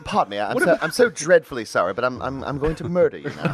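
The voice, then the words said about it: Killer doll with British accent. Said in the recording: “Chucky with a British accent”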